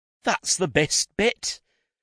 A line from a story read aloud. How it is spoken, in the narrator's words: Jacqueline cried